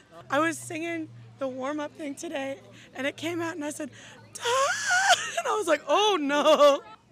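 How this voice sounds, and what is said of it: Voice nearly gone, hoarse. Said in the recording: “I've lost my voice.”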